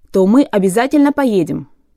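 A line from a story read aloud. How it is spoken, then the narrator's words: Quick start. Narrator (Russian): быстро начал Чук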